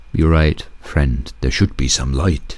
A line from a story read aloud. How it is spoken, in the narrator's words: eagle said